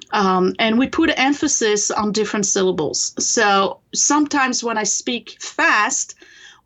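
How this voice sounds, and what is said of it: French accent. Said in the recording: “you can tell I have an accent ... people will still hear the accent ... I come from France originally. I was born in France and raised there.”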